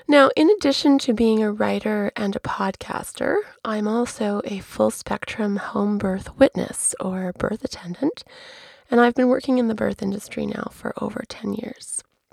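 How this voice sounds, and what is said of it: Voice hoarse from flu. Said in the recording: “a pretty awful flu, which you can probably still hear in my voice ... my less than mellifluous tones”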